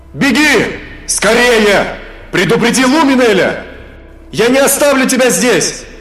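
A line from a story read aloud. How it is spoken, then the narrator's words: Desperate shout. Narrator (Russian): отчаянно закричал Эзраэль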